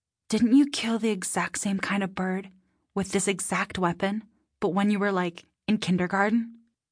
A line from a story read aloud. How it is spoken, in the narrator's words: She whispered to Eli